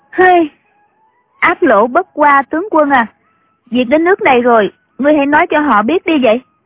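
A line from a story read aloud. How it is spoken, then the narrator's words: Sighing. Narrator (Vietnamese): Triệu Mẫn thở dài nói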